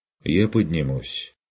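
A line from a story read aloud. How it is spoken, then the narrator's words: Firm, peremptory. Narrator (Russian): непререкаемо сообщил Курт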